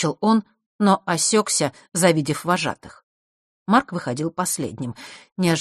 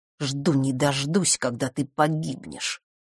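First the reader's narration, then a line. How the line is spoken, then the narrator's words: Quiet and vicious. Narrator (Russian): тихо и зло произнес он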